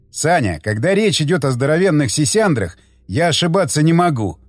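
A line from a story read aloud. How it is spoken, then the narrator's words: Guffawing. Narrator (Russian): захохотал Тигран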